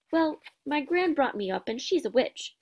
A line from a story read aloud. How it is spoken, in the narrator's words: said Neville